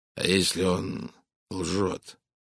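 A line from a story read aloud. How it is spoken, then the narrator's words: Hoarse. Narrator (Russian): хрипло проговорил американский миллионер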